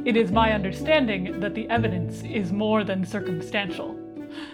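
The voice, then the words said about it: Impression of Worf. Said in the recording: “do a Worf voice”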